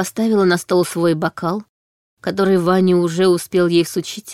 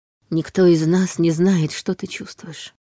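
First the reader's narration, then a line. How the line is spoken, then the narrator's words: Quiet. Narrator (Russian): тихо сказала она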